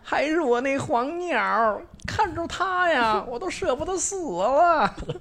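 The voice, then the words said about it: Old Beijing character voice. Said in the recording (Chinese): “您您您这个您这个腔调不太像松二爷，倒有点儿像茶馆里”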